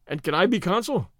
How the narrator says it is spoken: said Stedman cheerfully

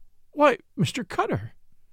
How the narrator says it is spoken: Miss Euphrosyne cried

